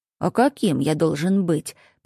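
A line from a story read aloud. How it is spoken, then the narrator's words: Grumbling. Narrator (Russian): проворчал он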